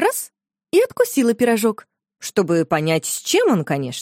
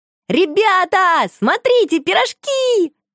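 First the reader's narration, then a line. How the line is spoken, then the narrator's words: Shouted. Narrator (Russian): закричала Шуша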